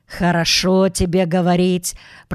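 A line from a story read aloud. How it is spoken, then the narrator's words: Grumbling. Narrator (Russian): проворчал мистер Браун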